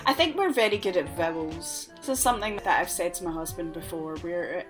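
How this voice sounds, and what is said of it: Scottish accent. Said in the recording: “vowel sounds in a Scottish accent sound like they're supposed to sound like”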